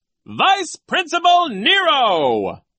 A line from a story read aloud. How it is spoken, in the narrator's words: the man announced in a loud voice